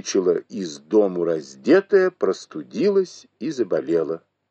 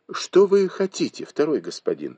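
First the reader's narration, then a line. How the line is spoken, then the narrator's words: Plain question. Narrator (Russian): спросила Уэр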